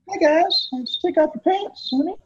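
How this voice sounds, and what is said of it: Creepy old man cartoon voice. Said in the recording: “really good at doing like funny impressions... it's not even an accent. It's just like, that's what it is... the creepy old guy from Family Guy.”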